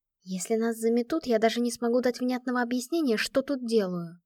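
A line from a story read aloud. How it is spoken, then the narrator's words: Whispered. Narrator (Russian): прошептала она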